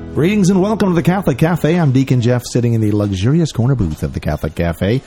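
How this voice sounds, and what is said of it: Polished radio announcer voice. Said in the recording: “You got your radio voice today. ... It's nice to have the radio voice. It always helps when you have all these like million-dollar processors and things.”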